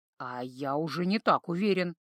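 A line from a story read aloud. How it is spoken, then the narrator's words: Muttering. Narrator (Russian): пробормотал Торн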